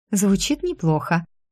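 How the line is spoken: Forced cheerful reply. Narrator (Russian): нарочито бодро отозвалась я

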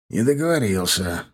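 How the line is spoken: Sighing. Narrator (Russian): вздохнул Седой

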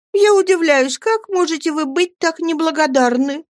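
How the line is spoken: Sobbing. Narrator (Russian): рыдала Дора

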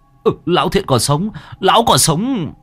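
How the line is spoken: Loud reassuring shout. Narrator (Vietnamese): Ông hét lớn cho Đen biết để hắn có thể yên tâm

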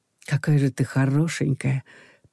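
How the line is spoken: Whispered in ear. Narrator (Russian): прошептал он мне на ухо

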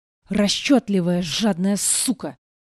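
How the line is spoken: Enraged roar. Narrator (Russian): взревел Вердан

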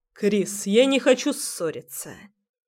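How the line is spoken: Calm voice. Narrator (Russian): начинает он уже спокойным голосом

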